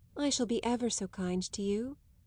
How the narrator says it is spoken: said Isabel gently

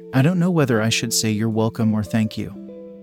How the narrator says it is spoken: I murmured with a laugh

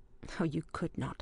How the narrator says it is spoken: murmured Lady Ardroy

